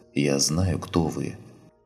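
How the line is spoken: Said quietly. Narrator (Russian): Лина тихо произнесла

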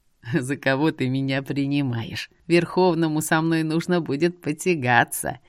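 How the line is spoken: Giggling. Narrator (Russian): хихикнул он

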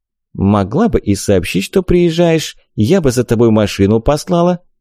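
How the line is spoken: Calm. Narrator (Russian): спокойно сказала Вика

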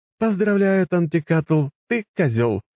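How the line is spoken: Burst of laughter. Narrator (Russian): расхохоталась Габи

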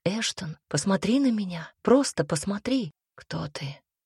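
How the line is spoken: King's whisper. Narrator (Russian): Прошептал король

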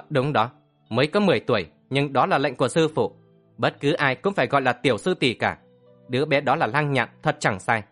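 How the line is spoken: Hurried, eager reply. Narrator (Vietnamese): Tiêu Hoa rối rít đáp

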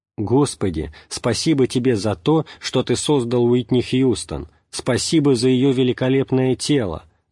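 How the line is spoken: Shouted. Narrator (Russian): закричал он

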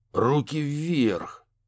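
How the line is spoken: Through gritted teeth. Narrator (Russian): процедил детектив

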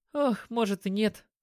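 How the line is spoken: Sigh. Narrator (Russian): вздохнула Лисе

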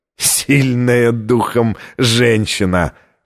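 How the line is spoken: Hoarse laugh. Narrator (Russian): хрипло рассмеялся ассасин

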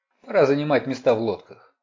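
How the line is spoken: Cold remark. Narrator (Russian): холодно заметил Хори Джексон

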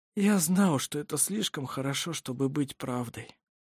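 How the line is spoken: Dejected sigh. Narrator (Russian): удрученно вздохнул Ировар

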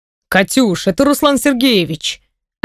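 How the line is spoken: Offended voice. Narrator (Russian): обиженным голосом отвечает Вишневский

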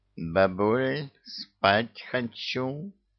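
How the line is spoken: Purring. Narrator (Russian): промурлыкал, увидев хозяйку Мурзик, и сладко зевнул

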